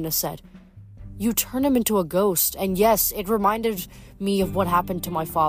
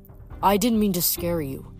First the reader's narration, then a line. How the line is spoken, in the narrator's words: Nico said bitterly